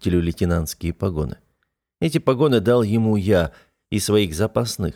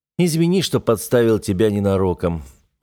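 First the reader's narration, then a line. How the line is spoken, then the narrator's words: Sighing apology. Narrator (Russian): вздохнул я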